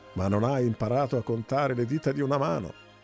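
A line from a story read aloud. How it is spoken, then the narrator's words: Mocking shout. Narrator (Italian): gridò Nebo beffardo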